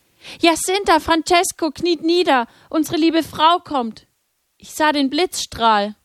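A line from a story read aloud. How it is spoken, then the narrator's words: Calling out. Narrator (German): rief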